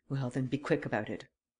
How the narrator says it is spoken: Varin recoiled before the resolute attitude of the banker as he muttered

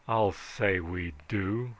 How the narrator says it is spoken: rumbled Hawkins

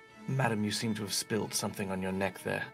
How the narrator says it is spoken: whisper very surreptitiously

